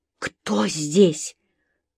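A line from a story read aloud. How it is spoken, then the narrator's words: Hoarse whispered question. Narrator (Russian): хриплым шепотом спросила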